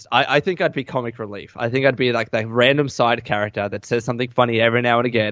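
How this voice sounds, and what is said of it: Australian accent. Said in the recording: “my accent, and I don't have that like that raspy like accent ... he has a funny accent ... because of my Aussie accent”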